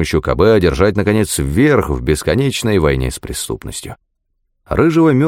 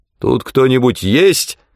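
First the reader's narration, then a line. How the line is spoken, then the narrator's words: Loud question. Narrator (Russian): громко спросил Мёрфи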